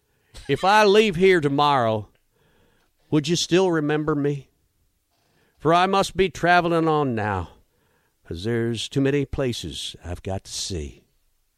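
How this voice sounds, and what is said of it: Put-on country accent, reciting lyrics. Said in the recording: “I read a song in a country accent.”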